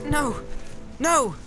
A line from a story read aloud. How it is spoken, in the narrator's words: cried Frodo